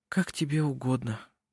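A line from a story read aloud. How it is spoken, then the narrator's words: Weary. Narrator (Russian): устало произнесла Тула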